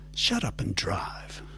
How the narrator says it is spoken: Margaret said sharply

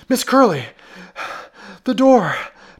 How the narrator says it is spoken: panted Ellery, pressing his knee viciously downward

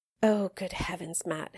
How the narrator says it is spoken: his mother muttered

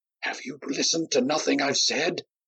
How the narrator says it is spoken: Myron whispered urgently

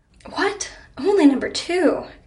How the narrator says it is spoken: exclaimed Helene, pretending to be offended

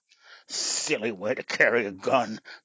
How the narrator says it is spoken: grumbled

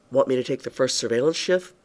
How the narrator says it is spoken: Bart asked

